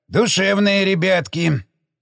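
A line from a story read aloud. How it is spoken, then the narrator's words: Scoffing grunt. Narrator (Russian): хмыкнул прапорщик Шестаков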